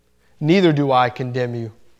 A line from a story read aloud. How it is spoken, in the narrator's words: said Jesus